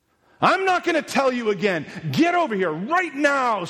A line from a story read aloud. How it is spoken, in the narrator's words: screamed Diabolos